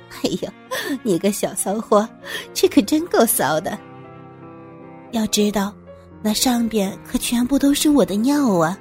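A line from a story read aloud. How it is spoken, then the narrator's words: Laughing. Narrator (Chinese): 这才笑着说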